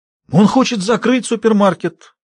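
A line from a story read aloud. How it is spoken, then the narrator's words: Exclaimed. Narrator (Russian): воскликнул Джек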